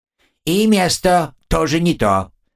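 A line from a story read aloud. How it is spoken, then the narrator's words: Sudden loud bark. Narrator (Russian): рявкнула Дара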